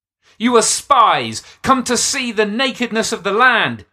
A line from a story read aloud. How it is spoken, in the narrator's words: shouted